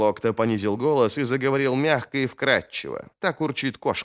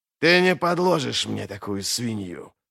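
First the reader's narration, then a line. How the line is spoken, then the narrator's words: Hissed. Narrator (Russian): прошипел Глокта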